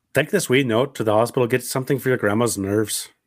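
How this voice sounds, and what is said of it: Pretty good put-on Irish accent. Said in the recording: “So you do good Irish. ... You do a pretty good Irish accent.”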